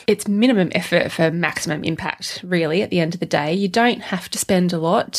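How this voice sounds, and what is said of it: Congested, nasal allergy voice. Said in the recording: “I have to apologise for my weird voice today... I have allergies today... I do sound a bit like Nanny Fine today”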